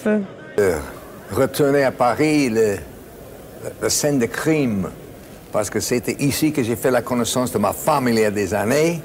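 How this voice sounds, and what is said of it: Non-native accent speaking French. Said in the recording (French): “son accent légendaire ... il a appris le français”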